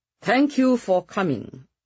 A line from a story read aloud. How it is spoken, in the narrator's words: Jack said stiffly